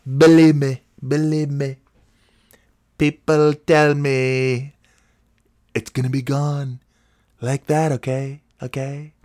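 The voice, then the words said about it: Imitates another person's voice. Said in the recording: “that's my Mike Wankum imitation ... That's a pretty good Mark Wankum.”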